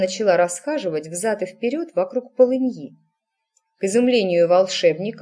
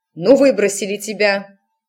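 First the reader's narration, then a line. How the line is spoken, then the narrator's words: Barking snap, mother. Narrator (Russian): рявкнула матушка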